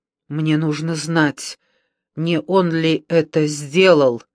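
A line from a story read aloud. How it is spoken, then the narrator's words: Forced out. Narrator (Russian): Наконец выдавила из себя она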